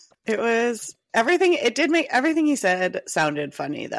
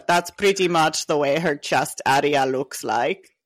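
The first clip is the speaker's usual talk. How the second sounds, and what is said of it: Put-on Austrian accent. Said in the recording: “I can't do an Austrian accent. ... Imagine Arnold Schwarzenegger. ... Oh, that was good. ... That was really good.”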